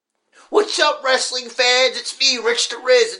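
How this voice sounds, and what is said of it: Imitates another person's voice. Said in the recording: “my impression of you ... It doesn't sound like me at all”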